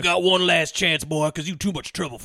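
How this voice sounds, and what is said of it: Exaggerated southern US accent. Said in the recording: “he's got a dumb southern accent like everybody else in this movie”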